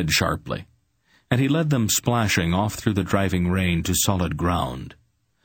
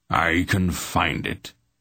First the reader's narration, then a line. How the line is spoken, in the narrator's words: Belgarath said grimly